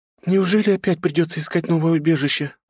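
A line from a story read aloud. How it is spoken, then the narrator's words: Sad sigh, young woman. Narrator (Russian): грустно выдохнула девушка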